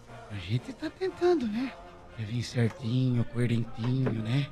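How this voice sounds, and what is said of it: Imitates another person's voice. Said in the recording (Portuguese): “queria tá fazer imitação aqui”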